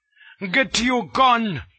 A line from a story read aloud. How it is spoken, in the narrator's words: he bawled